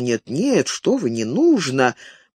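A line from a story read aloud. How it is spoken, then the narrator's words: Insincere, half-hearted refusal. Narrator (Russian): но таким тоном, что всякому было ясно, он согласен принять взятку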